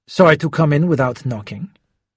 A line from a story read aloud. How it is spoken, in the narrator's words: Schubert said coolly